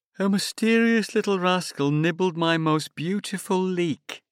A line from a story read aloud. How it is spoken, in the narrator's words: Mike Flood sighs